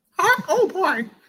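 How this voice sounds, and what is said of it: Mickey Mouse cartoon voice impression. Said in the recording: “Do you have a good Mickey Mouse impression?”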